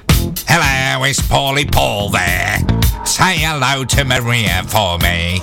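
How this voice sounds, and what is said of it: Imitates another person's voice. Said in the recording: “That was a good impression”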